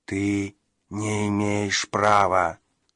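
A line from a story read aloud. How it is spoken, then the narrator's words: Strange sighing whisper. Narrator (Russian): прошептал странный вздыхающий голос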